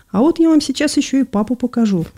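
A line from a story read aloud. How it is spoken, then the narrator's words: Cheerful. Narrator (Russian): весело сказала она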